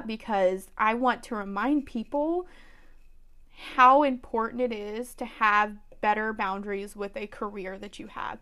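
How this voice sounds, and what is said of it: Emotional, choked-up voice. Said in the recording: “I'm getting a little choked up”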